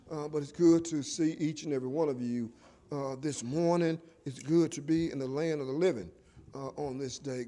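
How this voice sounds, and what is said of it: Voice sounds strained or unwell. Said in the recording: “Excuse my voice.”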